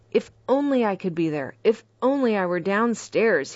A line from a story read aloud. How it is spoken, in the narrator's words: exclaimed